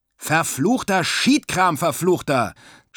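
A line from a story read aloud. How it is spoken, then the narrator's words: Angry shouting. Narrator (German): schrie der Skipper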